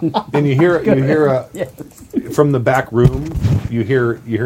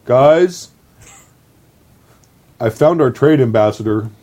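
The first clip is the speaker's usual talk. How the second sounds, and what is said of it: Imitates another person's voice. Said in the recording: “best ... impression I've ever heard”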